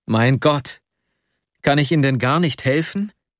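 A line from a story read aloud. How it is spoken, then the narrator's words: Desperate cry. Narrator (German): rief ich ganz verzweifelt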